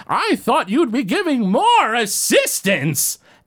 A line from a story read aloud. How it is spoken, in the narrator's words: he's yelling up at somebody